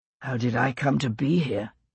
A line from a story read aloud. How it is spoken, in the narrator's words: Gray repeated under his breath